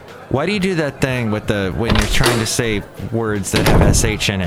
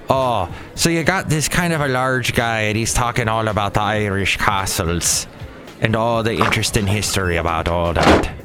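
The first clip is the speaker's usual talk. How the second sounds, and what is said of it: Put-on Irish accent. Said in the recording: “I was doing an Irish accent.”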